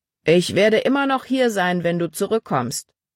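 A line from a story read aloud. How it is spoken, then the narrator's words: Calling after someone. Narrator (German): rief Paul ihr nach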